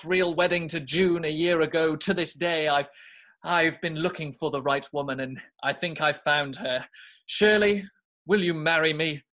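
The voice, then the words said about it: Put-on British accent. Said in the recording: “the happiest Australian man with a British accent”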